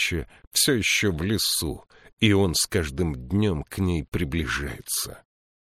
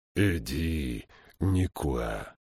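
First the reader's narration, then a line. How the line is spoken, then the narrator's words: Fearful whisper. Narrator (Russian): прошептал он, словно скрытые звезды могли его выдать, если услышат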